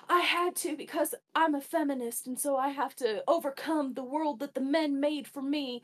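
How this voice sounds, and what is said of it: Put-on Southern accent. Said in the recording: “I switched to a random Southern accent”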